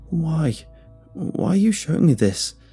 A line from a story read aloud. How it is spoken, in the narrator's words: I asked in a shaky voice